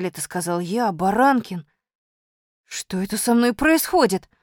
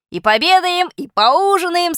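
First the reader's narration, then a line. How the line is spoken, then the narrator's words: Brisk, cheerful voice. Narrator (Russian): сказал я бодрым голосом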